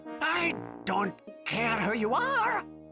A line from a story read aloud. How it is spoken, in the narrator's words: shouted the troll